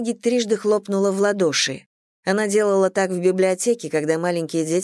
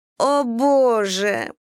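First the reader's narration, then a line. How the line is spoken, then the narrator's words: Moaning. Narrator (Russian): простонала Ронни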